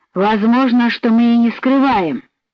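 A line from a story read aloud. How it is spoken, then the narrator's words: Rough objection. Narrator (Russian): грубо возразил Фогель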